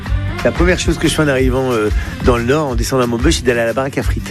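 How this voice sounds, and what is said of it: Northern French regional accent. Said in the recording (French): “n'a jamais perdu ni son accent, ni ses traditions du Nord ... cet accent, pour moi, c'est une carte postale ... avec cet accent, on sait que je viens pas de là où je suis, on sait que je viens du Nord.”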